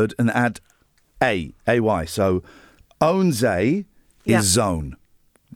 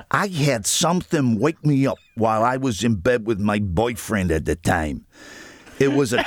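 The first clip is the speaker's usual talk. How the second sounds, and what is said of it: Put-on American accent. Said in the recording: “the accent's killing ... It's American. ... It's Al Pacino, isn't it?”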